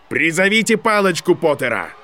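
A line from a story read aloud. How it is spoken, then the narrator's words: Shouting. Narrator (Russian): профессор Флитвик уже закричал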